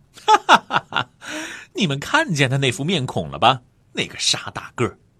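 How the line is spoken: Loud laughter. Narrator (Chinese): 马尔福就放声大笑起来

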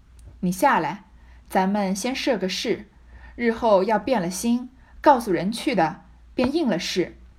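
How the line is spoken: Laughing. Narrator (Chinese): 香莲 向薛蟠笑道

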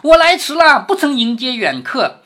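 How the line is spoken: Loud laughing. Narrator (Chinese): 大声的笑着说

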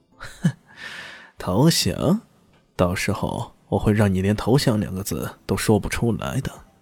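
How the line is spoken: Silent cold sneer. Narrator (Chinese): 方云在心中冷笑

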